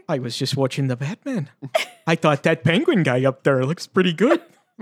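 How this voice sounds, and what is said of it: Put-on Fargo-style Minnesota accent. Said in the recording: “now you're doing like a Fargo accent ... like someone who like got bonked on the head in a cartoon”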